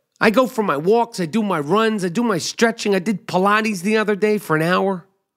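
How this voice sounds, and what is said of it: Rough, strained, failing voice. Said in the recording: “You hear my voice? I'm all fucked up. I hope to God I'm not losing my voice again.”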